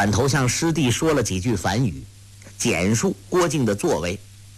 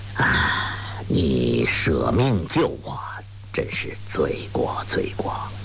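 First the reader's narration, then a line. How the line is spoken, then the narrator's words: Sighing. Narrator (Chinese): 一灯……叹道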